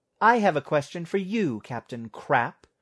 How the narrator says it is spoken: snapped Vera

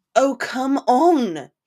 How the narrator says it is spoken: he exclaimed

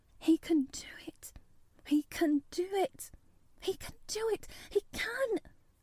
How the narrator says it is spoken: She garbled over to herself under her breath as fast as ever she could

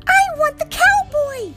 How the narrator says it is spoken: a girl screamed

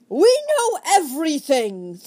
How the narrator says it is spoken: thundered Desmond

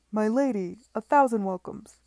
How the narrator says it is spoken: he cried

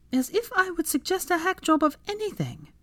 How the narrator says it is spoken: Hermione sputtered indignantly

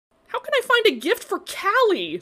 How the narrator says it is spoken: Sydney cried

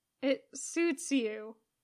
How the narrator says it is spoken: Poe murmurs

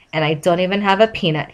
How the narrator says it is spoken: he grumbled to himself

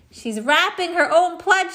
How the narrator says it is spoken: shouted Miss Cuddy

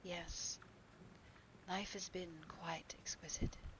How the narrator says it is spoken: he murmured

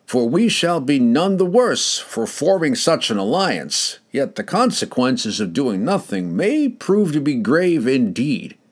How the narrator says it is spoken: he declared loudly

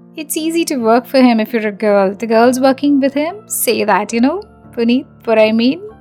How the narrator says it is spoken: added along with her silly laugh

